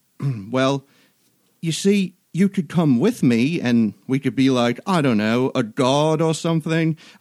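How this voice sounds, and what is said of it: Imitated voice, slightly Australian, incoherent. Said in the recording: “That impression was perfect. ... he did turn a little Australian ... Just the right amount of incoherence.”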